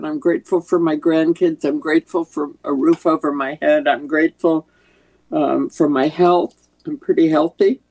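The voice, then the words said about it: Congested, sick-sounding voice. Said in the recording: “I have a cold”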